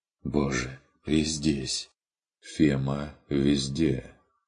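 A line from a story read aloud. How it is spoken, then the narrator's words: Quiet objection. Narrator (Russian): тихо возразил фон Эббенхольц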